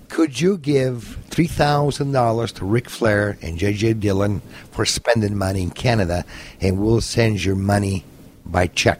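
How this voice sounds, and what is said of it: Imitation of Jim Burnett's American accent. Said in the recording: “he used to talk pretty funny... with the American accent”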